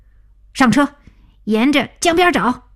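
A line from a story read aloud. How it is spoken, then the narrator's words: Excited shout. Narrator (Chinese): 小丁激动大叫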